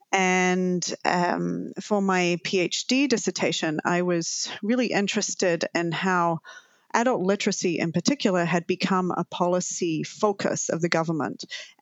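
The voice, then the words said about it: Lingering New Zealand accent. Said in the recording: “my lingering accent, I'm originally from Aotearoa, New Zealand.”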